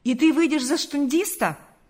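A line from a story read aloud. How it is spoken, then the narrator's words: Exclaiming. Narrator (Russian): воскликнул Карп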